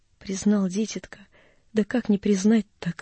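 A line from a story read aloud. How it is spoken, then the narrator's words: Old woman's tearful whisper. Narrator (Russian): прошептала старушка и залилась слезами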